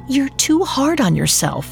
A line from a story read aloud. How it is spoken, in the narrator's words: Eve whispered